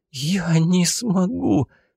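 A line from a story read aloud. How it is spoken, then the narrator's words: Hoarse rasp, coughing fit. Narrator (Russian): просипела и зашлась в приступе кашля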